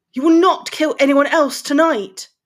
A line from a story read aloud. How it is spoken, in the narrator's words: shouted Potter